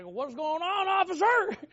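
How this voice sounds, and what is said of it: Put-on country accent. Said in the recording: “I'll just throw on my country accent”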